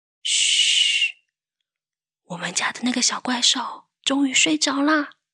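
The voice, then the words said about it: Speaking quietly, hushed voice. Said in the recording (Chinese): “你问我干嘛这么小声？ ... 小声一点”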